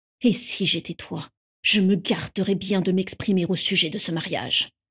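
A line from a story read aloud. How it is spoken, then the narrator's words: Hissing through teeth. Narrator (French): siffla Cygnus entre ses dents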